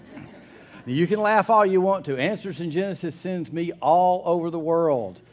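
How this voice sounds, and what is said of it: Strong Southern American accent. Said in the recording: “I don't have to apologize for my accent ... They thought Gomer Pyle had come to town ... They just wanted to hear me talk”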